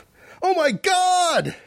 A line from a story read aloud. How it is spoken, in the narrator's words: she exclaimed